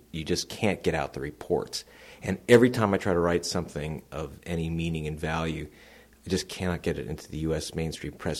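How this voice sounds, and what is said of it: American accent. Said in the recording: “you can tell from my accent, I'm not Professor Henry Higgins. It's very American.”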